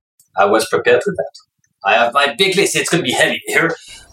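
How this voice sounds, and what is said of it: Slight French accent in English. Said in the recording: “Because I'm French, you may have spotted a little accent here”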